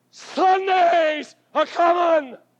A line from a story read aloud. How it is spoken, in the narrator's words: 2,000 people in that church shouted back